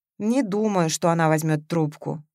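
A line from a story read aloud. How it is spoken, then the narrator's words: Sad chuckle. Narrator (Russian): грустно усмехнулся Матвеев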